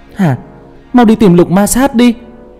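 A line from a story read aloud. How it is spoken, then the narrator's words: Loud shout from outside. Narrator (Vietnamese): Hoài Nguyệt đứng ở ngoài cửa hét lớn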